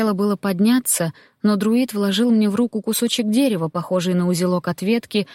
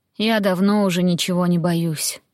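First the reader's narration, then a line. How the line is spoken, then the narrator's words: Tired reply. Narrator (Russian): устало произнесла в ответ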